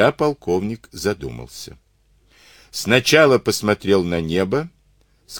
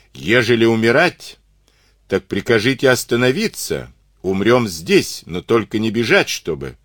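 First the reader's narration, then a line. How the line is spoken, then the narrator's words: Shouted. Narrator (Russian): вахмистр трехженный крикнул ему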